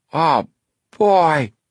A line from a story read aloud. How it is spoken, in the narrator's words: Chet exclaimed